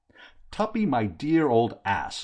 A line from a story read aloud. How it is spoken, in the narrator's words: I cried